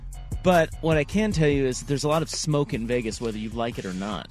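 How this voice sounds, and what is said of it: Rough, smoky, husky voice. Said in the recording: “You sound terrible over there. ... I got radio voice. ... You got those smoky Patrick Harris pipes.”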